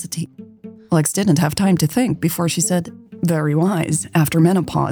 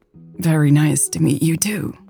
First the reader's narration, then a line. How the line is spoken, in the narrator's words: Lex croaked